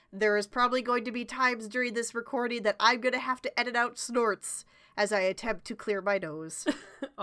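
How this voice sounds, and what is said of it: Nasal, stuffy voice. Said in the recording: “I am like just getting over being sick ... I sound a little nasally and or stuffy.”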